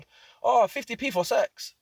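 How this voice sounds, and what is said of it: Put-on foreign accent. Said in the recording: “Why did I do an accent?”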